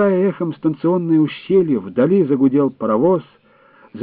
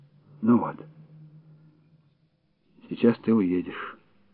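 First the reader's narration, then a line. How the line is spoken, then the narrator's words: Trembling voice. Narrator (Russian): дрогнувшим голосом проговорил Дюйшен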